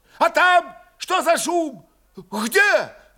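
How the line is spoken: Angry shout. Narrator (Russian): тоже закричал зло первый воевода

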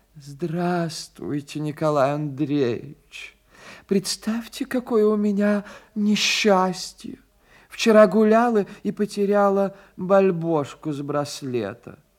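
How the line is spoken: Sad voice. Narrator (Russian): говорит печальным голосом

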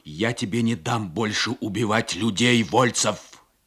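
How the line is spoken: Shouting. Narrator (Russian): Хольт закричал

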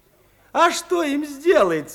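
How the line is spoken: Woman laughing. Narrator (Russian): засмеялась рукоятчица

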